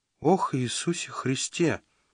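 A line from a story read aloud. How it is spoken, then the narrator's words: Whisper. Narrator (Russian): прошептал Родранер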